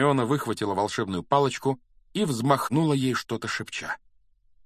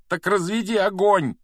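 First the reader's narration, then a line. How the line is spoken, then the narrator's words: Breathless shout. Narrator (Russian): крикнул Гарри, задыхаясь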